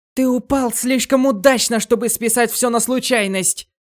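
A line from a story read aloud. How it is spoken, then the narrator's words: Shouting while running. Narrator (Russian): крикнула Маки на бегу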